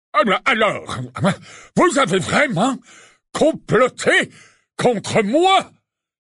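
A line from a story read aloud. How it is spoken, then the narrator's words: Exclaiming. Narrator (French): s'écria-t-il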